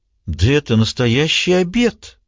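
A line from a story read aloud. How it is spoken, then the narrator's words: Astonished exclamation. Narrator (Russian): воскликнула Нора, потрясенная не столько блюдом, сколько тем, что Марго взяла на себя такой труд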